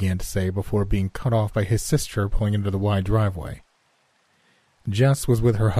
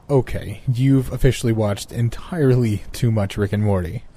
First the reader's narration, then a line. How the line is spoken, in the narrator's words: I said, laughing out loud